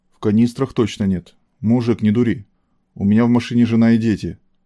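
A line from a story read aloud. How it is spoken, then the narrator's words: Calm. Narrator (Russian): сказал Шилов спокойно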